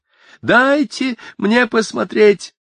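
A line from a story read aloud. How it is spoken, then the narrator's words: Shouted. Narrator (Russian): закричала Мэг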